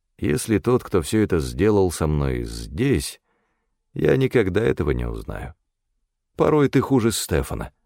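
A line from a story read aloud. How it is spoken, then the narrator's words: Plain. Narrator (Russian): сказал я ей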